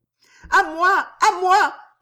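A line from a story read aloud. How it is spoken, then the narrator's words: Panicked scream. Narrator (French): cria-t-elle affolée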